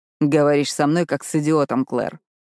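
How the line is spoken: Dry. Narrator (Russian): сухо произносит Зейд

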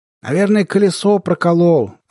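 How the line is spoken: Shouting into ear. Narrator (Russian): заорал он мне на ухо

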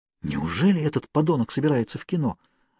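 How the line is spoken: Excited whisper. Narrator (Russian): возбужденно прошептала Кейт

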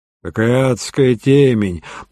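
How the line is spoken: Grumble. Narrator (Russian): проворчал Дребер

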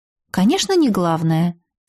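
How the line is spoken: Calm agreement. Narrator (Russian): спокойно согласилась

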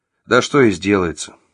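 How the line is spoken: Gloomy mutter. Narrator (Russian): буркнул Василий мрачно

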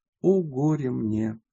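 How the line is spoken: Sighing tearfully. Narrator (Russian): вздохнула, прослезилась и сказала

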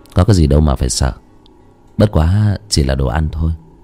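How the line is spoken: Smiling. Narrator (Vietnamese): Giang Thiếu Bạch mỉm cười

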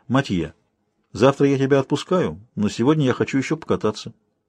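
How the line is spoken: Calm. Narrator (Russian): Она сказала спокойно

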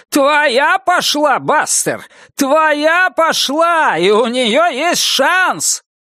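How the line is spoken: Crowd yelling. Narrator (Russian): толпа завопила

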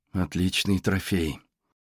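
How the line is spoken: Murmur. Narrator (Russian): пробормотала Джейн

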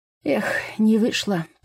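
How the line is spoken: Feigned sigh. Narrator (Russian): притворно вздохнул Виталий

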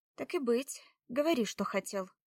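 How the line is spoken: With a sigh. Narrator (Russian): вздохнув, кивнула она

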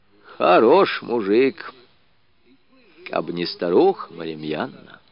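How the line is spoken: Old woman, heavy sigh. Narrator (Russian): бабушка Лукерья тяжело вздохнула и проговорила

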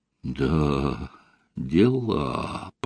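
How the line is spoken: Drawn-out, bewildered. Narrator (Russian): протянул Костя, растерянно

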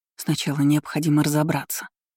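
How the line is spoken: Muttered. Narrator (Russian): пробормотала

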